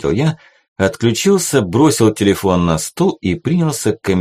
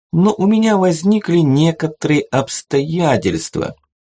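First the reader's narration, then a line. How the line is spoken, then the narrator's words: Honeyed sweet voice. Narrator (Russian): медовым голоском отозвался Свен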